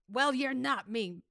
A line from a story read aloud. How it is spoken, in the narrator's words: Grisham told him sharply